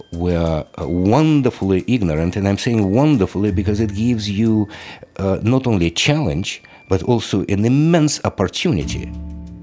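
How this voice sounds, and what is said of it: Russian accent. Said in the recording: “I don't think that's a Boston accent... Not unless there's a city in the former Soviet Union that's called Boston. Now, he's from Russia, and he grew up in Moscow”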